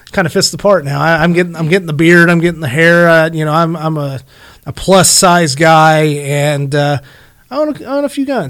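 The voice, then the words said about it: Southern American accent. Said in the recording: “I'm starting to have a really big southern redneck accent”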